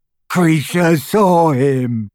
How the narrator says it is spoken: gasped the elf as tears poured over his snout

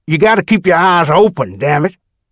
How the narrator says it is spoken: Harry Rex growled

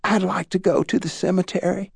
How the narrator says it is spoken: she whispered to her pastor

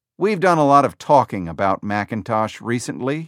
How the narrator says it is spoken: he said

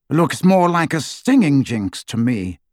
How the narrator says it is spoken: said Lucius

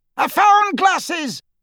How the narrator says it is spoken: yelped one of the snatchers skulking in the background

